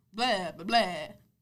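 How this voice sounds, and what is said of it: Put-on weird vampire accent. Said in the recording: “they all have this weird accent, most of the vampires. They all talk like this.”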